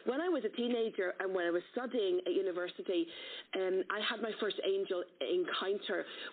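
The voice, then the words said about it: Irish accent. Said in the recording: “this is an Irish accent, and I'm full-blown Celtic warrior”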